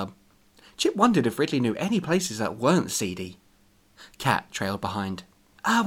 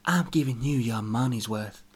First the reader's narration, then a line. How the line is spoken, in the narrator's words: she whispered seductively